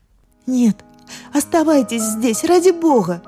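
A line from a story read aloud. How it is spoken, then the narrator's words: Sobbing cry. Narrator (Russian): выкрикнула я, всхлипывая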